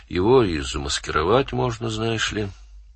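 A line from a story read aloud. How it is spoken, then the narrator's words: Indifferent tone. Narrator (Russian): Тем же безразличным тоном сказал он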